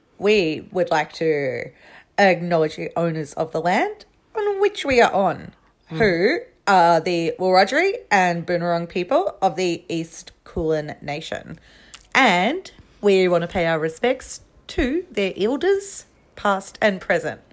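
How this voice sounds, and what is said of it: Funny put-on voice. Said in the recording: “I went into a funny voice there ... Sorry about the funny voice”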